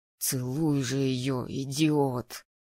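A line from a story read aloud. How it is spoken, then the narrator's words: Hissing. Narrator (Russian): прошипел Влад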